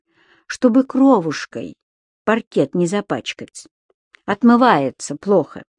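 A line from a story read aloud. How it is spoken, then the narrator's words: Willing, courteous. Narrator (Russian): Трэвис охотно пояснил, причем довольно любезным тоном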